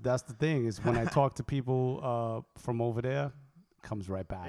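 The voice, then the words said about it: New York accent. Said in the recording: “I still get shit about my accent. Apparently, I have an accent. ... You do. It's kind of gangster. Little thug. ... the New Yorkness”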